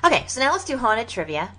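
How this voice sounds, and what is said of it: Stereotypical ditzy blonde voice. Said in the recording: “You sound like a freaking blonde. ... I really did slip into my blonde thing.”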